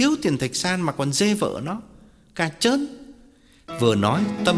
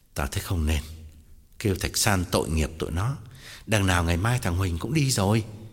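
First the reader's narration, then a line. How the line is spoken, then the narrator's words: Sighing, feigned gentlemanly interruption. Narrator (Vietnamese): Tòng thở dài ngắt lời, làm ra vẻ quân tử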